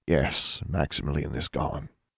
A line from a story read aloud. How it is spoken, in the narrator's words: said gravely, his voice little more than a whisper